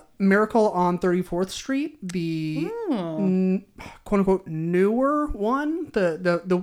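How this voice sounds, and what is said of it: Usual voice. Nothing is said of it.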